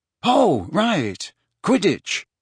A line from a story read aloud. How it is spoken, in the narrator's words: said wearily